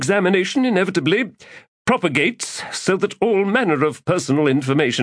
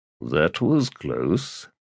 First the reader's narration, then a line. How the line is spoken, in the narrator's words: Estrasian murmured